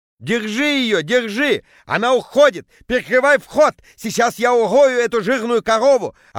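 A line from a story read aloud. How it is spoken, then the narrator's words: Yelling. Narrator (Russian): орал Петя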